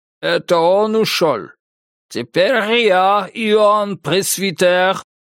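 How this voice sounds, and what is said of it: Heavy foreign accent, broken grammar. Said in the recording (Russian): “С жутким акцентом и топорной грамматикой”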